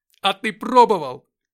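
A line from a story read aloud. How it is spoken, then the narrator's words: Strained shout. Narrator (Russian): крикнул я, срывая связки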